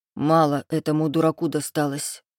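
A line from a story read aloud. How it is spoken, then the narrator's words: Gloomy, through gritted teeth. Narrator (Russian): мрачно процедил Ихлас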